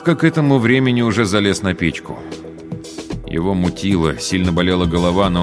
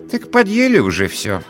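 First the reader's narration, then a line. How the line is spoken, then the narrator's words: Calm. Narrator (Russian): спокойно сказала она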